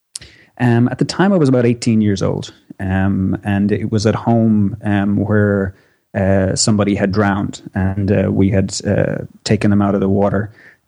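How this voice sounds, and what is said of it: Irish accent. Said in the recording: “you don't have a New Jersey accent. You're from Ireland, it is?”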